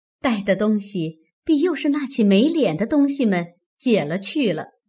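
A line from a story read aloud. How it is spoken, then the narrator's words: Sly, sneering laugh. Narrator (Chinese): 阴笑道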